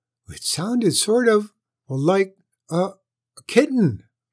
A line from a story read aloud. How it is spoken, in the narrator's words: faltered Shadow